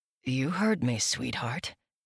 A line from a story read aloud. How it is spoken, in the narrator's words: Luke muttered